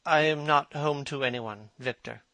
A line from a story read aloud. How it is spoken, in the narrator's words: he said with a sigh